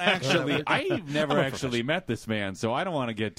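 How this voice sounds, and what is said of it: Usual voice. Nothing is said of it.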